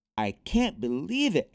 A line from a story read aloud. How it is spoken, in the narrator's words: exclaimed Nick